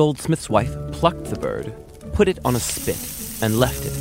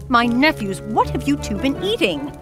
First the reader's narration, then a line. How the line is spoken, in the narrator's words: She exclaimed